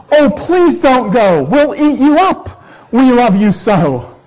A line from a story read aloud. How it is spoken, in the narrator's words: the wild things cried out